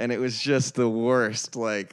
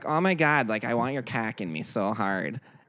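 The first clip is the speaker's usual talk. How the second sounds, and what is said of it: Imitated Wisconsin accent. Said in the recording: “she's actually from Wisconsin, and her accent is so.”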